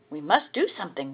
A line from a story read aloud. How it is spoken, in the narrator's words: whispered his brothers